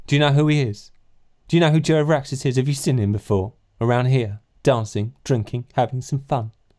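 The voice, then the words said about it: Silly put-on character voice. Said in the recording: “doing a stupid voice”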